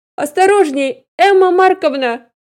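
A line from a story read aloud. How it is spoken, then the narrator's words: Shouting. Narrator (Russian): крикнул Алексейка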